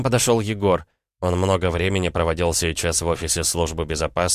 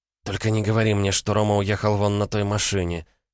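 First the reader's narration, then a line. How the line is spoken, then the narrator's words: Through gritted teeth. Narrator (Russian): сквозь зубы процедила она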